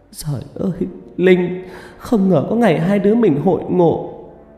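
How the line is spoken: Emotional sobbing. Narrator (Vietnamese): Vẻ xúc động dâng lên trong khóe mắt, Tâm nức nở

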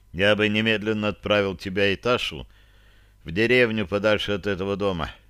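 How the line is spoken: Low muffled voice. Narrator (Russian): глухо произнес я

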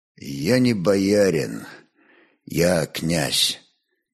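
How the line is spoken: Quiet warrior's voice. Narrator (Russian): тихо молвил могучий воин

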